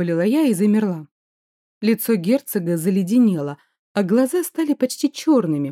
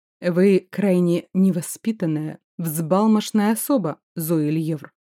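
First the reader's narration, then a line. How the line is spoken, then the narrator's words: Menacing through clenched teeth. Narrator (Russian): Процедил он таким тоном, что у меня колени подогнулись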